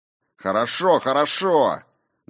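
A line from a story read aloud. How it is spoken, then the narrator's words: Loud bark over noise. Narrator (Russian): гаркнул он, перекрывая шум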